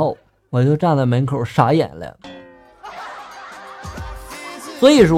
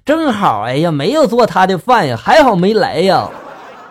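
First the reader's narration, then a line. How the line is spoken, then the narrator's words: Loud. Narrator (Chinese): 俺女朋友他妈就在厨房里面继续大声就说了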